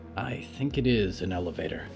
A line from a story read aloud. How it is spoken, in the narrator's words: Olivier muttered